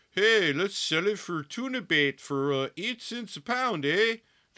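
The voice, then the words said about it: Mock Maine accent, sounding Canadian. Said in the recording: “I don't know what my main accent is. I'm just making, that was probably more Canadian.”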